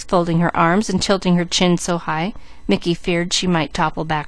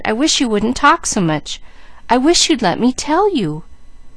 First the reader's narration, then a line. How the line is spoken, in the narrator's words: he cried